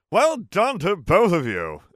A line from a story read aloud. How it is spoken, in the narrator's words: exclaimed